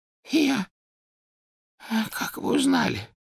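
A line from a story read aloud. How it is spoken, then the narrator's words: Hoarse pleading croak. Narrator (Russian): прохрипел Оливандер, с мольбой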